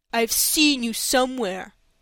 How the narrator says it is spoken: said in a surly tone

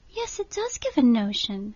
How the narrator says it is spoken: said Catherine warmly

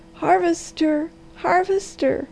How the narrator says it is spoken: she cried

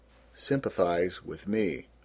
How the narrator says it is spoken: gloomily

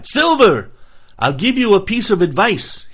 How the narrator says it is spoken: he cried

